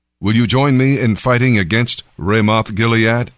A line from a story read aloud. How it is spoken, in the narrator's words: Ahab asked